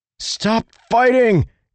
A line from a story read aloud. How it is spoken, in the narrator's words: Kaladin shouted